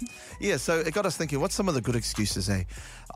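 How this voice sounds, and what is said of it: Usual voice. Nothing is said of it.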